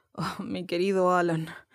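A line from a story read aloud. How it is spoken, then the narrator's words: Sobbing. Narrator (Spanish): sollozó Hagi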